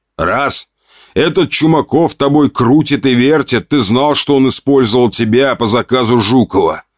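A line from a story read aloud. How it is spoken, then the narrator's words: Father growling. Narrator (Russian): Рыкнул отец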